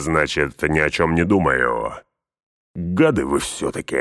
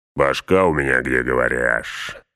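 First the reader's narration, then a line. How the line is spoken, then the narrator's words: Growl. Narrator (Russian): рыкнул Углук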